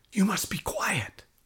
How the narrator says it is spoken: whispered a teacher

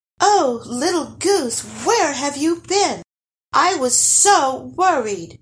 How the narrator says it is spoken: cried her mom

